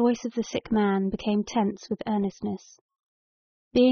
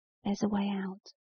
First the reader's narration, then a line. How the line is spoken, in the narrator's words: he whispered